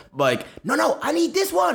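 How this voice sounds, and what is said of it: Imitates another person's voice. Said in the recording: “It was a pretty good imitation ... It was great, actually. It was amazing.”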